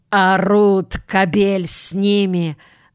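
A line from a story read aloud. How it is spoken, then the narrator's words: Angry reply. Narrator (Russian): злобно отвечала другая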